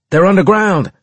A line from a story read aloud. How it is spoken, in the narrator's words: I shouted